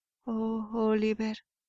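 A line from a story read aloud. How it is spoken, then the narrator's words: Moaning mother. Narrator (Spanish): gimió su madre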